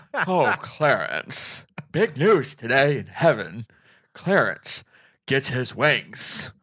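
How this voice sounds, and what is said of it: Imitates another person's voice, winded. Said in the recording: “Very Jimmy Stewart, just more winded. He's maybe like Jimmy Stewart with asthma ... I'm doing my Jimmy Stewart impression.”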